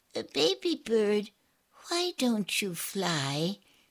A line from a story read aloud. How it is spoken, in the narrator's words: she asked him